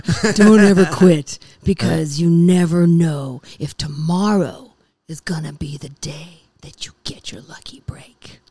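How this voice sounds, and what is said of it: Imitates another person's voice, deeper. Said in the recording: “I'm doing a terrible Edward James almost accent... I'm just gonna go deeper here”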